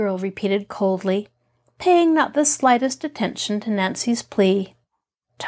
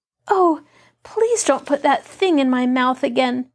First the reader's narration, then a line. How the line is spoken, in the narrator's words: Nancy pleaded